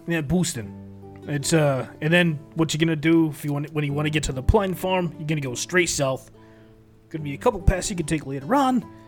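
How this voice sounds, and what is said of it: Boston accent. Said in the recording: “my Boston accent seems to be coming back”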